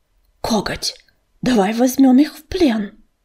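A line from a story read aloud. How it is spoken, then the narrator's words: Quiet hiss. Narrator (Russian): негромко прошипел кто-то из толпы невидимых котов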